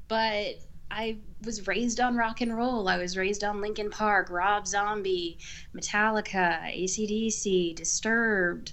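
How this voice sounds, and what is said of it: Texan accent. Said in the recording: “you're from Tejas ... I'm hearing the accent. It's very lovely.”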